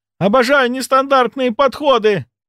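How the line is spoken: Shouting. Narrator (Russian): кричала она

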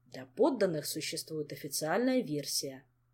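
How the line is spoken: Grumbling. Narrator (Russian): проворчал Шелар

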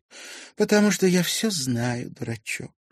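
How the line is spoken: Soft young woman. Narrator (Russian): мягко произнесла девушка

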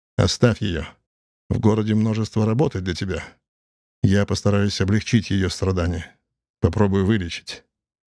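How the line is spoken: Calm reply. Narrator (Russian): спокойно ответил Эрнард

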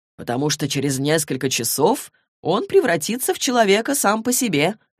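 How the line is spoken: Plain. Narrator (Russian): ответил Магнус

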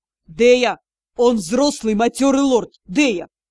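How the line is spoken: Hissed. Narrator (Russian): прошипел Юрал

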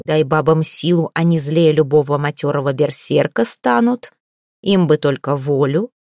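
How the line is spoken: Rough. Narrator (Russian): Ольге же грубо сказал

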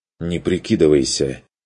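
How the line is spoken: Angry, forced out. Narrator (Russian): зло вытолкнул Курт

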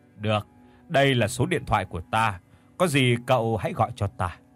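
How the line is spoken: Older man, smiling. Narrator (Vietnamese): Ông hiệu trưởng mỉm cười

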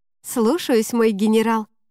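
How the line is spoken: Wry snort. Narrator (Russian): хмыкнула я

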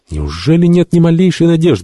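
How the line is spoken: Exclaimed. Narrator (Russian): воскликнул он

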